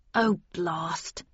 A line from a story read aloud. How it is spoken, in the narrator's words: he muttered